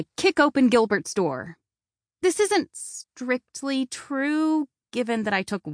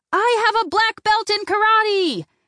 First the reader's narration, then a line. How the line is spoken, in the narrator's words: shout